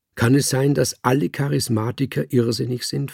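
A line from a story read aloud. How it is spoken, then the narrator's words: Plain question. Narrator (German): fragte mein Herr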